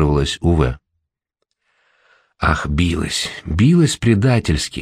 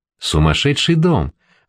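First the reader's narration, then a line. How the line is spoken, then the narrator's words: Joyful exclamation. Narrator (Russian): радостно воскликнул младенческой лицей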